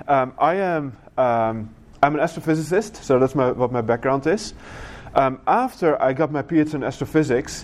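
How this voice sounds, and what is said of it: Dutch accent in English. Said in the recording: “I was in the Netherlands at that time. That's where I grew up. So that's where my accent is from as well”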